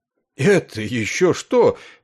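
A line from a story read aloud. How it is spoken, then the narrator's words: Exclamation. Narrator (Russian): воскликнул Маквот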